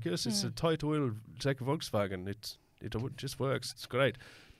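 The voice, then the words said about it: Bad put-on German accent. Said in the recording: “why were you using an Irish accent? ... That was my German. ... your accents are bad”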